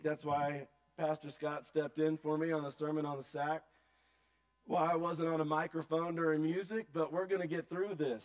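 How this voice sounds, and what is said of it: Weak, strained voice. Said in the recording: “my voice is pretty weak”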